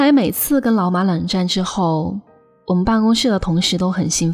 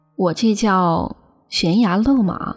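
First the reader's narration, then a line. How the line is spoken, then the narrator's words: Sighing. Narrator (Chinese): 我叹气说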